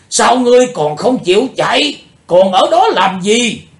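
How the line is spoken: Shouting. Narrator (Vietnamese): Tiếng hét

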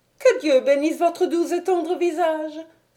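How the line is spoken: Exclaimed with nervous sobs. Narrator (French): s'écria-t-elle en sanglotant nerveusement

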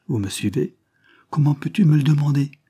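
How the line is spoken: Exclaimed. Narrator (French): s'écria-t-il

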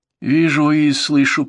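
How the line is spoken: Moaning. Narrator (Russian): простонала та

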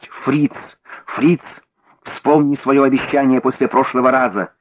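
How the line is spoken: Shouting in English. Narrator (Russian): кричала она на английском языке

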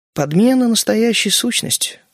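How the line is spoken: Calm explanation. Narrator (Russian): пояснила спокойно

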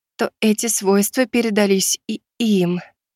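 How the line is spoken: Timid smiling. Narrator (Russian): робко улыбнулась старшая суккуба

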